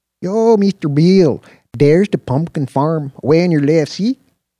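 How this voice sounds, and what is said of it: Thick Mexican accent. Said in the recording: “spoke in an unapologetically thick Mexican accent,”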